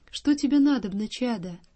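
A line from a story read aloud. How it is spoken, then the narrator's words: Gentle old man asking. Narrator (Russian): старец ласково спросил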